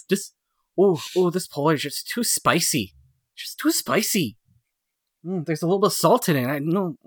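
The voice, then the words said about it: Attempted Midwestern accent, odd impeded speech. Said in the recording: “I was trying to do a Midwestern accent, but it kind of just evolved into... someone who is just, like, a speaking, like a speech disorder of some sort. Like a King's Speech kind of thing.”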